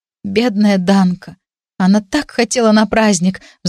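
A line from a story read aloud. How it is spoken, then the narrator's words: Sighing. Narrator (Russian): вздохнула я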